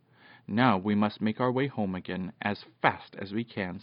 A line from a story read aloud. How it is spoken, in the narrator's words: said Peter